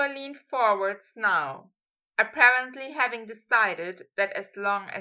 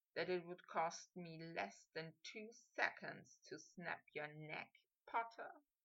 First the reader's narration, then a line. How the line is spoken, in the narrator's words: he murmured